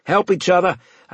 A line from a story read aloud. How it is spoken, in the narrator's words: I called out